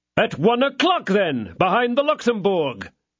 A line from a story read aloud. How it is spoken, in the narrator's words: shouted Porthos